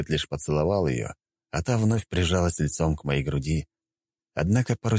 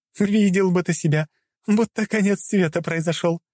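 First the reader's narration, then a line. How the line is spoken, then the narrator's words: Laughing. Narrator (Russian): смеялась она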